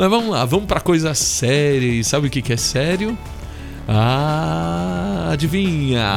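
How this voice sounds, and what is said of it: Usual voice. Nothing is said of it.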